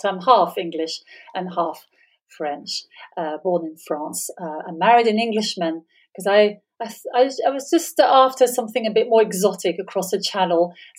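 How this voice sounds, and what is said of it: Foreign accent trying to sound British. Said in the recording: “as you can tell from my accent, although I try my very hardest to sound very British, but I'm not”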